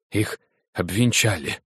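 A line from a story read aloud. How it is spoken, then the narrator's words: Breathed out. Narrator (Russian): выдохнул я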